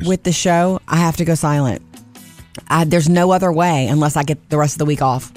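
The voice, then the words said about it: Strained voice, losing it. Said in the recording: “with every word I'm saying today, I'm losing my voice”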